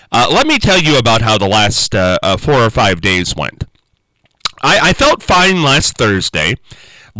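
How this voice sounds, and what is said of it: Congested, stuffed-up voice. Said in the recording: “I don't know if you can tell by the sound of my voice already... I'm a little stuffed up... I've got a cough drop in”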